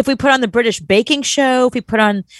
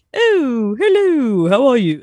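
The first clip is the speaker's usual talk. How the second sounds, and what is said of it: Put-on posh British accent. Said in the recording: “I find the British ... Like that ... they like the British accents, calm them out”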